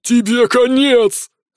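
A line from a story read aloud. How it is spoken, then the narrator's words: Furious roar. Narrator (Russian): взревел Ворзан, заметив, как тают ряды его соратников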